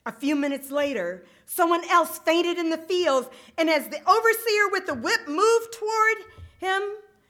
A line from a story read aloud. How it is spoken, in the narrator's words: the young healer shouted